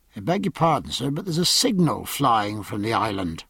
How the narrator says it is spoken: Mowat said softly

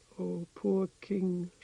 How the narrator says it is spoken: she said softly in Hardic

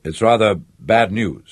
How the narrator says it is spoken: said

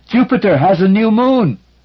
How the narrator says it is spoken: shouted in his ear

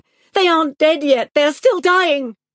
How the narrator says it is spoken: Each night in the dark, she woke up screaming

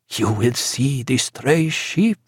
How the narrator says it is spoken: said Eduardo, in little more than a whisper

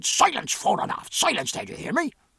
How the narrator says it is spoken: with such extreme vehemence and indignation that the cackle stopped dead

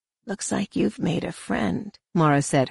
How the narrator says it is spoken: her voice whispering close to his ear

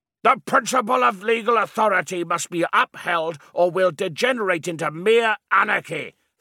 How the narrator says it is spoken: thundered a fat, frowning man

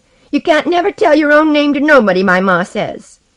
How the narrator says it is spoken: shouted a fat, quick boy

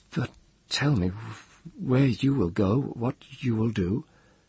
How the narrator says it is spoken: said, stammering

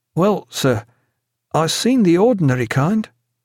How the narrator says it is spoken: The very young man blushed, choked on his fish, and in a strained voice, looking nervously at his companions, said

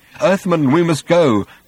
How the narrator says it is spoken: said Slutty Bartfast nervously

